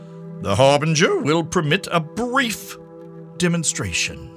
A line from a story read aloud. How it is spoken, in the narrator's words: she raised her voice to pronounce